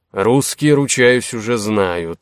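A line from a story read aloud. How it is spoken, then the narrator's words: Sighing. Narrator (Russian): вздохнул Золотых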